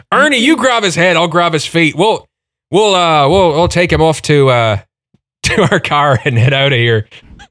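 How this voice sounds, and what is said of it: Put-on Irish accent. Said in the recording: “the sheriff was ... Irish, European ... he was Irish, wasn't he? ... I forgot my accent”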